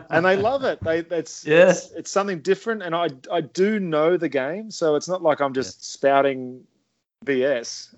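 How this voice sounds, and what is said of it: Australian accent. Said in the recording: “Australian accent.”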